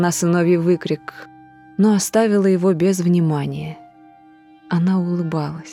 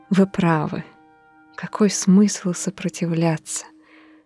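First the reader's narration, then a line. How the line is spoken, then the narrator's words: Quiet. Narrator (Russian): сказала она тихо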